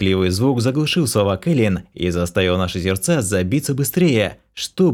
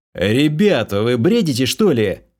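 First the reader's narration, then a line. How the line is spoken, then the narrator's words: Roaring shout. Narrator (Russian): проревел я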